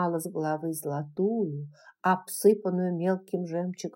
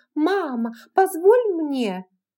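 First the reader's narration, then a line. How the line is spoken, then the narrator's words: Exclaiming. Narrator (Russian): Фенни Элсинг, воскликнув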